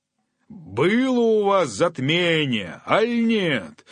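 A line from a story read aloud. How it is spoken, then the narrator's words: Shepherd shouting from bushes. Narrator (Russian): крикнул из-за кустов пастух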